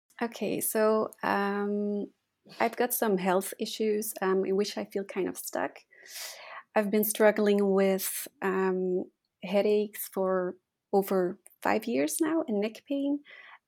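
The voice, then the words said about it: Belgian accent. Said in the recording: “where is your accent from? ... I'm from Belgium ... I love your accent. And it's beautiful.”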